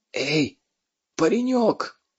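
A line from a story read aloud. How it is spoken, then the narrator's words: Fugitive's husky call. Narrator (Russian): осевшим голосом позвал его беглец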